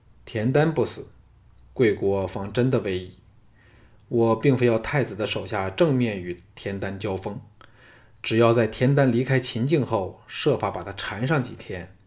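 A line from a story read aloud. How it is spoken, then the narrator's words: Calm, indifferent. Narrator (Chinese): 项少龙淡淡的说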